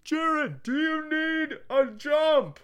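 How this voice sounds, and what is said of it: Imitated yell of friend's dad. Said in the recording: “A really good impression of his voice. ... that was pretty friggin' spot on.”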